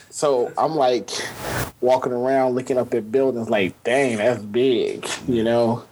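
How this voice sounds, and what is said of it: Louisiana Southern accent. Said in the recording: “Grambling, Louisiana... I can hear it in his accent”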